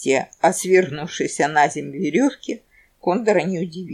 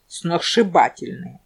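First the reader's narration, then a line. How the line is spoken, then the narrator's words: Gloomy confirmation. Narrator (Russian): мрачно подтвердил Куропяткин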